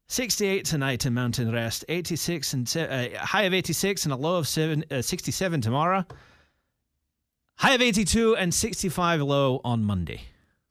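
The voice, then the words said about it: Put-on Scottish accent. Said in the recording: “Go Scottish. Go Scottish.”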